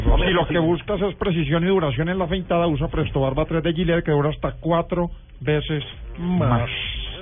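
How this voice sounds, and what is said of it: Announcer-style advertising voice. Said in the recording (Spanish): “qué voz ... voz de locutor ... pucha voz”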